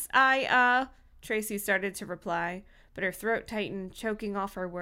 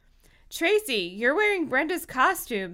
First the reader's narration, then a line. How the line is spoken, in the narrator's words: someone yelled